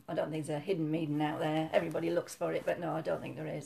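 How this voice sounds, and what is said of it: Yorkshire accent. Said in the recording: “Yorkshire girl. Um, you can probably hear that from your accent.”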